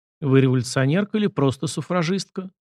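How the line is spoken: Gloomy question. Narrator (Russian): мрачно поинтересовался Сашка

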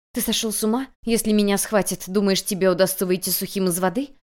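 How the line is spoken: Hissing. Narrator (Russian): прошипев

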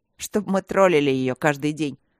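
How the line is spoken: Smirking grunt. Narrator (Russian): хмыкнул Ваня

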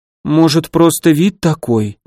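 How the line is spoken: Uncertain suggestion. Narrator (Russian): неуверенно предположила Мирослава

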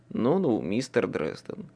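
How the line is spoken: Sighing. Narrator (Russian): вздохнул Кайли

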